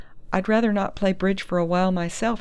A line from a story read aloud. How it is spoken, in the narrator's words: Dundee laughed